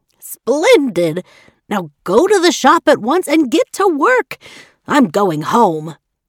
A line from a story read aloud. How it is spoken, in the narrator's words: the dressmaker shouted